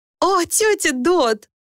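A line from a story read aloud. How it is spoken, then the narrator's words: Laughing exclamation. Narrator (Russian): смеясь воскликнула Люси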